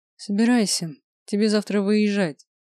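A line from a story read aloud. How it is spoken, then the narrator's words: Tired, fatherly. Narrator (Russian): устало сказал отец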